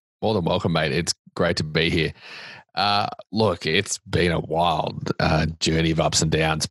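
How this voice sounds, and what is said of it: Australian accent. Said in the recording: “As you can tell from my accent, I am not from Nashville or Tennessee or the US. I grew up in a beach town in Australia”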